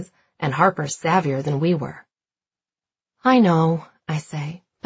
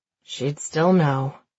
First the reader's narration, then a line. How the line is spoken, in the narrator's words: Meredith says with a sigh